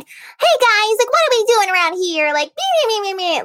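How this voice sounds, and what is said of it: High-pitched child character voice. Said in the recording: “my prime is like 9 to 12 years old ... doing that voice ... I used to try to imitate the chipmunks”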